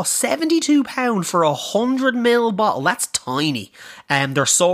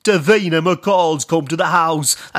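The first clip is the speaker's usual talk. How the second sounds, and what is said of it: Imitates another person's voice. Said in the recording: “That's my impersonation anyway”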